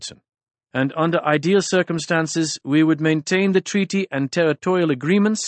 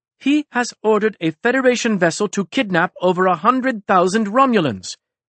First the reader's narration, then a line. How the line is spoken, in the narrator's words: exclaimed Sulda